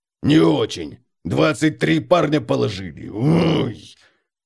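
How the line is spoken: Wincing, barked. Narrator (Russian): Бемельберг поморщился, язычно гаркнул

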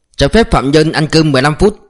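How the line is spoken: Officer's barked order. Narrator (Vietnamese): Tên thiếu úy lại quát

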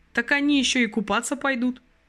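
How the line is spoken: Cheerful reply. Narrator (Russian): бодро ответил Игорь

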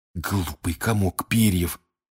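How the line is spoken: Hiss. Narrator (Russian): прошипел Рон

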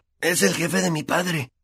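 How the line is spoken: Muttering. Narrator (Spanish): musitó Ron

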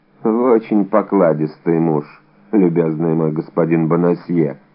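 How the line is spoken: Plain. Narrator (Russian): сказал кардинал

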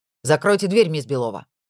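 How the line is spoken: Boss barking harshly. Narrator (Russian): рявкнул шеф

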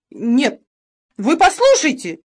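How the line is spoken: Shouted, jumping up. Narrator (Russian): закричал Бинкс, вскакивая с места

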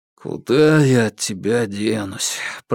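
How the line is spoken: Muttered. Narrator (Russian): пробормотал Иван

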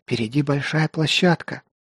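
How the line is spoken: Whisper. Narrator (Russian): шепнула Неленда

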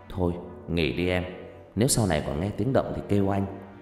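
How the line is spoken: Soft reassuring. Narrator (Vietnamese): để trấn an vợ, chàng nhỏ nhẹ nói

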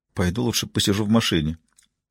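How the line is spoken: Mumble. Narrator (Russian): пробормотала она

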